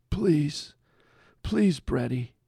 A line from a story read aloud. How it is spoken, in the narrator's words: he said in a gravelly voice that was unfamiliar to Brett